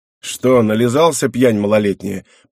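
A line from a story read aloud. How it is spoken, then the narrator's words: Deep bass reply. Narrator (Russian): пробасил тот в ответ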